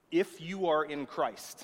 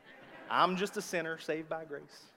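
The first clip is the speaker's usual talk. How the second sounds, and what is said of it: Put-on Southern US accent. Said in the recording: “That was my southern accent coming out.”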